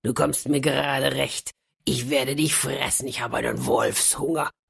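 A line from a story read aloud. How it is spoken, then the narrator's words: Wolf growling. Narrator (German): der Wolf knurrte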